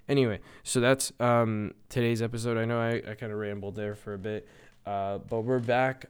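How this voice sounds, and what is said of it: Slightly strained, fading voice. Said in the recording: “I'm losing my voice a little bit because I haven't done these in a second. I'm definitely going to drink some more water next time.”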